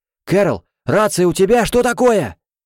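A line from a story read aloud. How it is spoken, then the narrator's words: Shouted reply. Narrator (Russian): закричал Тофлер в ответ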